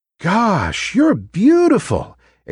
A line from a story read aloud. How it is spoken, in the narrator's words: exclaimed the other trees